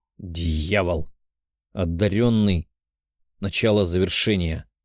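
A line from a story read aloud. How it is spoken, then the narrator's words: Growling. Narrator (Russian): прорычал Тео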